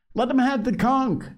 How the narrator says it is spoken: shouted Piggy

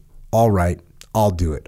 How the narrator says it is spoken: I said

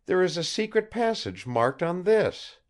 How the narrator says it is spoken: she cried

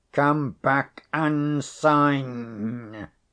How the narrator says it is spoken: he reiterated, in his loudest and angriest tones

